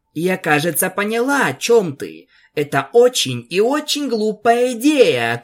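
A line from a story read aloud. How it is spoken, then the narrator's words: Shout. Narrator (Russian): крикнула Пегаска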